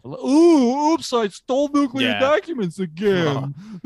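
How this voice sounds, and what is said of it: Imitates another person's voice. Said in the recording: “That's a good Trump.”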